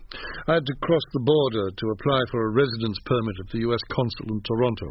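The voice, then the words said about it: Classy British accent like George Sanders. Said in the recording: “this classy George Sanders accent ... This accent is the honest result of a 10-year incarceration in a British boarding school”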